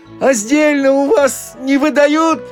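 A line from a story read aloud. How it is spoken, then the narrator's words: Shouting. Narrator (Russian): Милиционер крикнул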